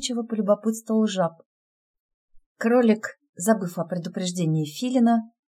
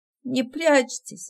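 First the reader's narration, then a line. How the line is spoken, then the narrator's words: Strained, tearful. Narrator (Russian): выдавила Соня, утирая слезы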